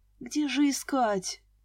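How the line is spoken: Moaning. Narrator (Russian): застонала я

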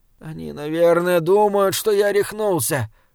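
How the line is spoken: Moaning. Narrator (Russian): простонал Саймон

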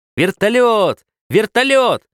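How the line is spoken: Loud joyful boyish yell. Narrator (Russian): По-мальчишески громко и радостно заорал Ленька

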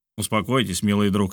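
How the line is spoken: Plain. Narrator (Russian): сказал Барбикен

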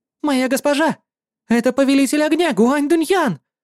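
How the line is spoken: Excited exclamation. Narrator (Russian): взволнованно воскликнула Шуан Эр

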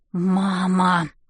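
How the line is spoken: Whisper through clenched teeth. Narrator (Russian): шеплю сквозь зубы

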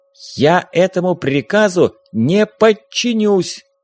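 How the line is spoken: Loud declaration. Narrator (Russian): громко заявил ботаник

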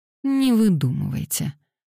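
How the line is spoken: Cold retort. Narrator (Russian): холодно парировала Пандора

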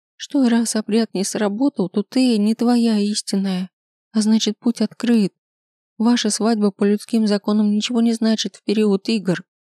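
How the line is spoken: Sobbing. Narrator (Russian): всхлипывает она

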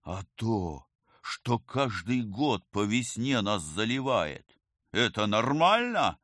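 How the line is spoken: Wailing. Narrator (Russian): взвыл оперативник

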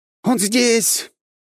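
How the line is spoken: Frantic shriek, unfamiliar voice. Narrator (Russian): истошно завопил чей-то незнакомый голос

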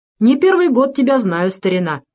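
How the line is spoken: Cheerful clerk. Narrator (Russian): весело сказал приказчик

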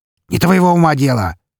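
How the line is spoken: Barked shout. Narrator (Russian): гаркнул он

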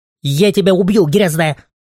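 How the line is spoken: Shrieking. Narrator (Russian): провизжала она

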